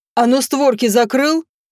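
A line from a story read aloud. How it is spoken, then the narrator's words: Barked from behind. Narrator (Russian): Рявкнули за моей спиной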